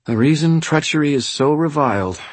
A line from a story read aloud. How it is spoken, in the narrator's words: she said in a careful tone of voice